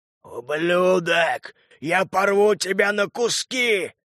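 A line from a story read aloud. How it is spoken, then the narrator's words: Growling. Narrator (Russian): рычал Лютый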